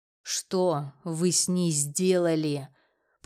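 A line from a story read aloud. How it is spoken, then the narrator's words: Hissed through clenched teeth. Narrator (Russian): Процедил я сквозь зубы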